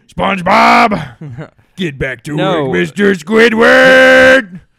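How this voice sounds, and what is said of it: Mr. Krabs cartoon voice. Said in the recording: “What is that voice? Is it the narrator, or is it Patrick? Mr. Krabs? ... Mr. Krabs.”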